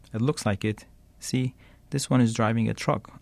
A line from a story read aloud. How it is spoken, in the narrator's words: answered the other